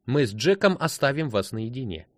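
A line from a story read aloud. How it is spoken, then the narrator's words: Loud. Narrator (Russian): громко сообщила она Арни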